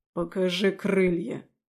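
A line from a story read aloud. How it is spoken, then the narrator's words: Growling demon. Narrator (Russian): прорычал демон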